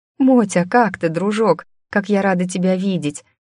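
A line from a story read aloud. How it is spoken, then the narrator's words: Nonstop laughing exclamations. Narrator (Russian): Безостановочно восклицала я, смеясь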